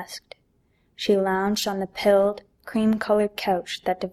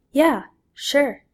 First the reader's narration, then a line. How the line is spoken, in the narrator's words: answered